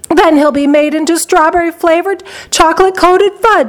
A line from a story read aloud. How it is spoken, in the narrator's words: screamed Mrs